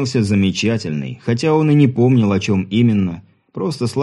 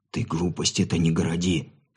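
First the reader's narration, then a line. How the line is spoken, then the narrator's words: Whisper. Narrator (Russian): шепотом произнес Сергей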